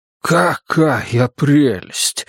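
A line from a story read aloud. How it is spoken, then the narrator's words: Breathed out. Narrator (Russian): выдохнул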